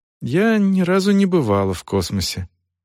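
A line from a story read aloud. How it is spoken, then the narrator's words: Sad, smiling. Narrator (Russian): грустно улыбнулась Клозия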